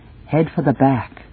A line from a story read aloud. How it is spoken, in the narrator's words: Avglen murmurs at my side